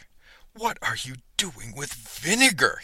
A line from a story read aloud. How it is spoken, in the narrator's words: spluttered